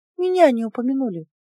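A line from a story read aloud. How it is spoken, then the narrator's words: Sighing. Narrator (Russian): вздохнула Анифа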